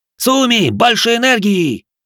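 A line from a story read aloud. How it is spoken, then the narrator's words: Roar. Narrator (Russian): взревел Кеничи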